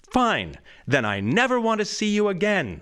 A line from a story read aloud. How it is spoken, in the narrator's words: screams Serena